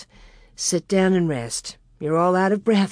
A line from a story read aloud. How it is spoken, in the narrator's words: said